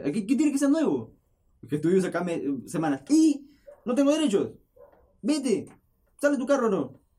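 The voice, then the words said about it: Loud shouting. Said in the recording (Spanish): “le, grité por la. así yo grito ... si alguna vez me ves gritando así fuerte”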